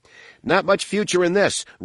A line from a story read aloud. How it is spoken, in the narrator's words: Roa shouted